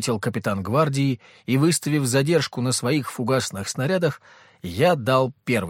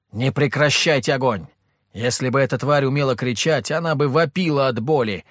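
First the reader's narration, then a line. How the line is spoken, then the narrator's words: Shouted over radio. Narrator (Russian): крикнул я в рацию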